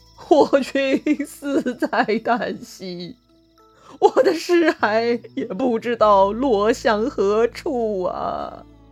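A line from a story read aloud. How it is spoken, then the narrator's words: Weeping, sighing. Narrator (Chinese): 沮授是大哭啊，叹息道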